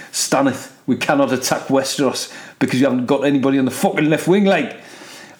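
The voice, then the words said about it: Put-on Geordie accent. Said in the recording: “I fucking love the Geordie accent ... because of his Geordie accent”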